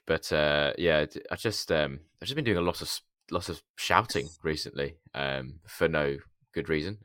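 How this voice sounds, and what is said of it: Hoarse, gravelly voice. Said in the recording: “as you can probably hear tonight, I'm a little bit hoarse ... apologies if I sound gravelly”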